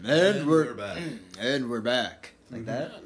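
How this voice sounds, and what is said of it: Radio game show host voice. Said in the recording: “Is that a good radio, like, we're back voice? ... you gotta have more, like, from your diaphragm ... I sound like a game show host.”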